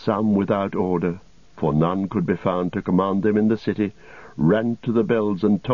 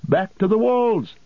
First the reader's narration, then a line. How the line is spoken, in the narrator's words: they cried